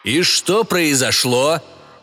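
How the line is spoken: Yelling. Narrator (Russian): орал Вимс

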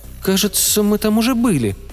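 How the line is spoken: Uncertain. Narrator (Russian): неуверенно сказала Майя

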